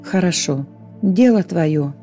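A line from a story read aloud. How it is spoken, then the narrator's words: Angel's sigh. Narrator (Russian): вздохнул ангел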